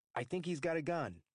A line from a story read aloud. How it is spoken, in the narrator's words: Liga call in an even louder voice